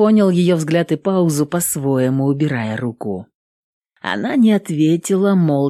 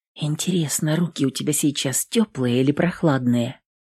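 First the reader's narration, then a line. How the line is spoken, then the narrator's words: Whispered unawares aloud. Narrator (Russian): прошептала она, не замечая, что сказала это вслух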